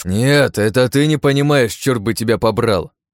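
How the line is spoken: Loud room-filling bark. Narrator (Russian): Рявкнул я на всю комнату

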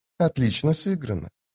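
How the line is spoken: Whisper. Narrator (Russian): прошептал он

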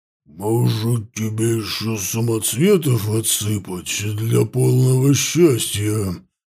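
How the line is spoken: Booming deep bass. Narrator (Russian): прогудел каменный тролль гулким басом

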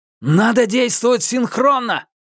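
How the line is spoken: Shouting. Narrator (Russian): крикнул Минхо

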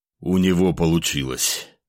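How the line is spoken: Breathy mage. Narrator (Russian): выдохнул маг

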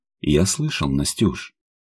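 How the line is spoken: Gentle. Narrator (Russian): мягко кивнул

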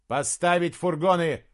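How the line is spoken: Shouted from above. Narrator (Russian): прокричал Джошуа сверху

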